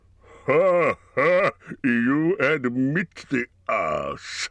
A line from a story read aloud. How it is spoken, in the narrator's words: laughed Smaug